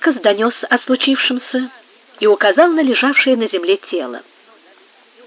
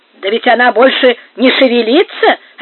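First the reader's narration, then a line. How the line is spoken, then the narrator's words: Coarse guffaw. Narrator (Russian): расхохотался грубый карлист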